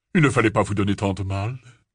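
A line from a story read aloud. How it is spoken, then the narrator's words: Grave, deep voice. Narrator (French): déclara-t-il d'une voix grave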